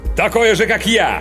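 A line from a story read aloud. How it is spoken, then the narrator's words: Sudden loud bark. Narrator (Russian): Внезапно гаркнул агент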